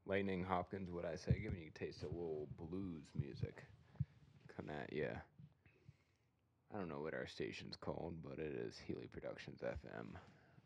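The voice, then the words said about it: Put-on radio DJ voice. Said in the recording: “Gotta bring out the old radio voice.”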